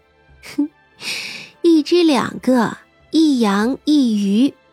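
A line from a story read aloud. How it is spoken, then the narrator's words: Laughing. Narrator (Chinese): 三娘笑道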